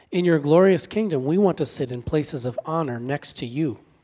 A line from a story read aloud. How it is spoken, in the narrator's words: they said